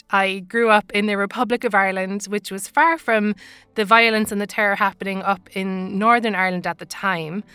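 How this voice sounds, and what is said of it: Irish accent. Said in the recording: “as you can tell from my accent, I'm Irish.”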